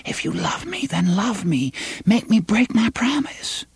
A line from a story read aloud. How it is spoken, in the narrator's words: she put them to his ear and whispered